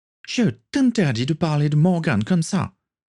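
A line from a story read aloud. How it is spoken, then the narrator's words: Exclaimed, rising. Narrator (French): s'écria en se levant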